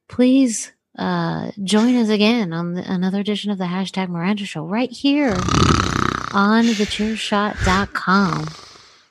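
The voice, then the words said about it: Very soft NPR-style voice. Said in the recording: “Sometimes I've done my NPR, very soft voice. ... It's a cure for insomnia right there.”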